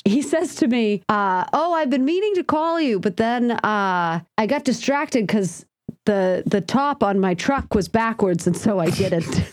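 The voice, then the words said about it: Noticeable accent. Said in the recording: “What is this accent you're doing? ... your accent's coming through still”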